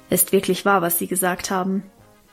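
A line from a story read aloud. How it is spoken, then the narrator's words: Plain. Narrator (German): sagte sie dann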